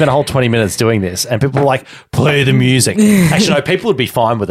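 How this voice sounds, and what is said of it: Usual voice. Nothing is said of it.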